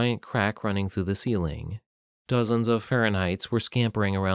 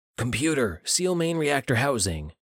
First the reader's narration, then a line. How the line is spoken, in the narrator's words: Jonathan yelled